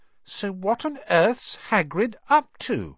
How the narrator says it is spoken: said Hermione

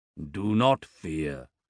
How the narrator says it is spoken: the big man rumbles

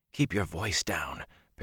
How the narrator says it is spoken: Perrin whispered

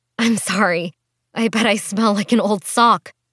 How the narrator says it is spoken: Lily groaned and laughed nervously

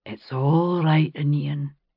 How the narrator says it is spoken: he said to the dog, his voice low and husky

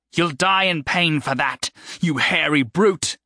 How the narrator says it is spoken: The woman's voice came fiercely down

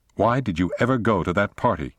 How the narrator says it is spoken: snapped Dexter

